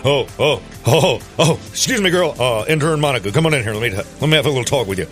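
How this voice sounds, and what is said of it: Imitates another person's voice. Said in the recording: “Is that your Bill Clinton impression?”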